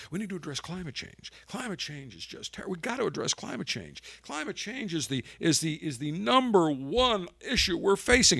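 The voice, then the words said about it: Impression of Joe Biden. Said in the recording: “let me do a Biden voice.”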